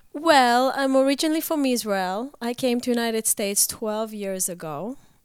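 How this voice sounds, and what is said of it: Sick, deeper than usual voice. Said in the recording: “She's feeling a little under the weather ... Sexy voice sounds a little deeper ... or any coughing ... this is not my voice”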